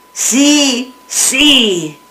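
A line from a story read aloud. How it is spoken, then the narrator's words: Men shouting together. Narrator (Spanish): gritaron todos los hombres al mismo tiempo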